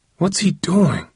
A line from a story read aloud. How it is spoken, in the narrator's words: Hakeem growled under his breath